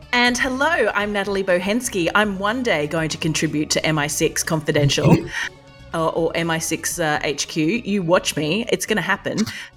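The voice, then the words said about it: Australian accent. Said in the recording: “I'm based in Australia, hence the accent.”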